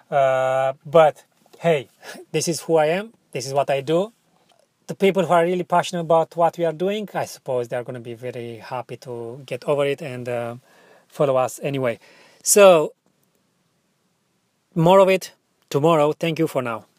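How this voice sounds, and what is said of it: Strong non-native English accent. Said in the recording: “my English is not good enough, my accent is still strong”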